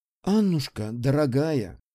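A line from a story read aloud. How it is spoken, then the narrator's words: Sighing. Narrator (Russian): вздохнула графиня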